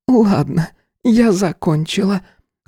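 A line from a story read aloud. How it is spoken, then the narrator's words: Said after a deep sigh. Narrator (Russian): глубоко вздохнув, произнесла Барбара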